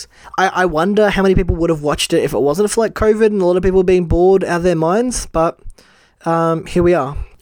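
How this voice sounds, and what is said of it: Talking really fast, rushed. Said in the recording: “this feels like I'm talking really fast ... I'm rushing the fuck through it”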